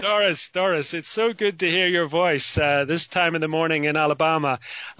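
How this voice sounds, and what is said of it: Irish accent. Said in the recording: “I just love your accent. I just want to, you know, your accent is so amazing. It's just so beautiful. I just want to pinch your little Irish cheeks”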